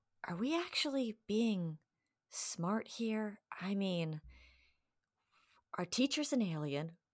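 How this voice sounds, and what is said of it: Lowered, quieter voice. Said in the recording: “I lower my voice a little bit”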